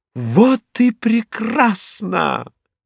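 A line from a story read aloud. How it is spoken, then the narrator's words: Exclamation. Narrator (Russian): воскликнула Рагуля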